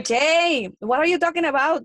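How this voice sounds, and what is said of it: Sofia Vergara impression, heavy Colombian accent. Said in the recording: “2 ounces of wine and I start almost talking like the girl. I don't know if you guys watch Modern Family over there. ... Sofia Vergara.”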